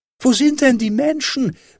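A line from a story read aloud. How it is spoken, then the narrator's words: Child calling upward. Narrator (German): rief der kleine Hävelmann hinauf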